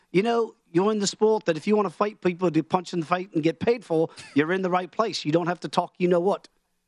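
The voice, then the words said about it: Bad put-on Australian accent. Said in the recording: “I'll do my bad Australian accent ... It's a terrible accent ... I thought it was more Irish than it was Australian ... English ... It's kind of like my Sean Connery, which is always bad Irish, and then it meets Australian somewhere in the middle”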